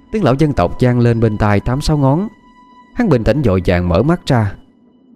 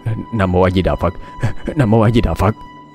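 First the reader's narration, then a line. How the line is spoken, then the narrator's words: Muttered ceaselessly. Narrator (Vietnamese): miệng không ngừng lầm bầm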